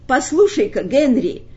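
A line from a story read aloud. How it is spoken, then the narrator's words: Shout. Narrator (Russian): крикнул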